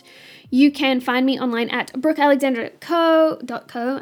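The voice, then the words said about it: Very fast speech. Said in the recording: “I said that really fast.”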